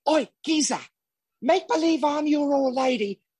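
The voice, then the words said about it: Imitates another person's accent. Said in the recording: “we want to hear the impression ... let me hear the accent.”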